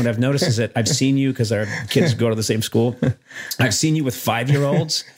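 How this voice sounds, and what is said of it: Usual voice. Nothing is said of it.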